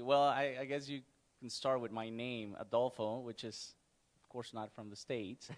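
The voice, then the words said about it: Non-native English accent. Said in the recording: “pick up from your accent that this might not be your native country”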